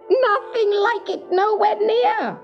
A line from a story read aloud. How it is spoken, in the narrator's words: cackled the little man